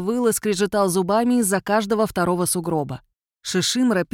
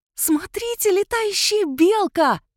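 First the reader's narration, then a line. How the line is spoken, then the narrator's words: Delighted squeal. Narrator (Russian): завизжала Агнесса, но не от страха, а от восторга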